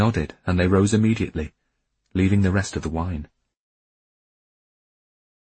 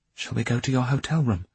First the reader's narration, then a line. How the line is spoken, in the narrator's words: she asked quietly